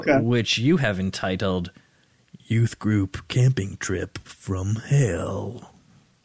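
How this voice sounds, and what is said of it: Horror announcer voice. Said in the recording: “a great, like a great horror announcer voice”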